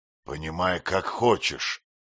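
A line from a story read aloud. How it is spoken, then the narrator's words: Rough reply. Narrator (Russian): грубо ответил звонарь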